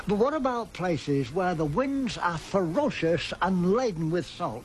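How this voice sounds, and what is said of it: Australian man with English-sounding accent. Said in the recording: “A very famous Australian voice with an English accent.”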